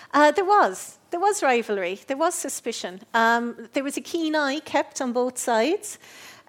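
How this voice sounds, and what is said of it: Cork Irish accent. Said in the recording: “a proud Cork accent”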